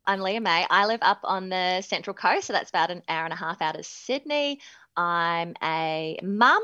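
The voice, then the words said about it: Slight New Zealand accent. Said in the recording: “the slight Kiwi accent, although I did live in Manchester for a couple of years. So I feel like it's kind of made the Kiwi accent a bit wishy-washy”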